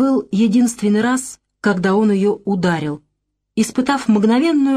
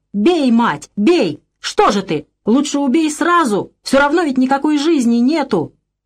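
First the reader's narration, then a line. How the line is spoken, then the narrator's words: Yelling. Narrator (Russian): Он тоже что-то орал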